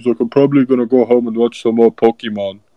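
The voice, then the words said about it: Imitates another person's voice. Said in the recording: “that was spot game. On Jokic impression. ... that was a good impression.”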